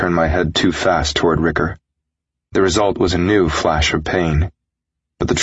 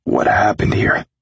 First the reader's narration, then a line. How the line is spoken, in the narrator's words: I croaked, afraid of his answer